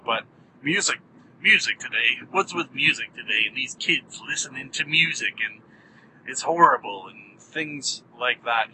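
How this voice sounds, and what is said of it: Put-on grumpy grandpa voice. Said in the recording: “don't call me Grandpa Carolla ... He doesn't sound like that. I don't know why I did that voice.”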